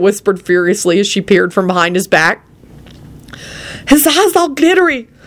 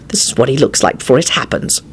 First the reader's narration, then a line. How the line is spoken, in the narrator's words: Quentin hissed back